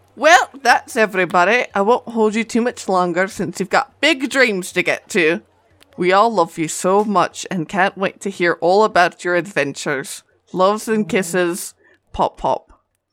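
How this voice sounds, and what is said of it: Sustained put-on accent. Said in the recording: “you read that whole thing in that accent. That's amazing.”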